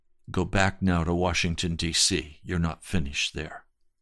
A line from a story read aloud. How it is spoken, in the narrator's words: he said to me, quietly in my spirit